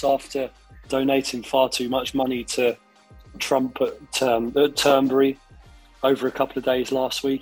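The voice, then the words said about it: Hoarse, strained voice. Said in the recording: “I've lost my voice”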